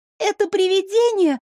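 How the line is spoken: Delighted squeak. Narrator (Russian): с восторгом пропищала немного отошедшая от шока Мира

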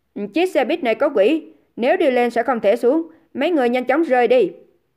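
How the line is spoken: Loud shout. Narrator (Vietnamese): Dương Gian quát to

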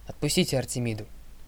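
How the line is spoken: Stern demand. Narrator (Russian): суровым тоном потребовала Зоя

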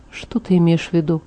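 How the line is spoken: Plain. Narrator (Russian): спросил он

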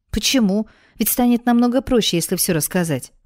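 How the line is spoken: Exclaiming. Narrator (Russian): воскликнула я

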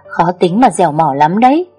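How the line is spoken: Crisp laugh. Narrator (Vietnamese): Em bật cười giòn tan

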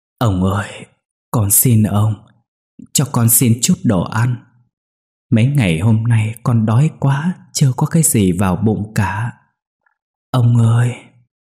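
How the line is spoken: Trembling, stammering child. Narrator (Vietnamese): Đứa bé run rẩy lắp bắp nói

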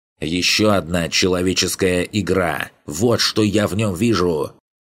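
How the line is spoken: Sudden loud bark. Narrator (Russian): Неожиданно громко рявкнула Зерге

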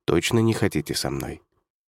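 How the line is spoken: Quiet. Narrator (Russian): тихо произнес

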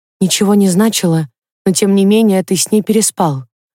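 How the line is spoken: Sad. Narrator (Russian): грустно подытожила Инна

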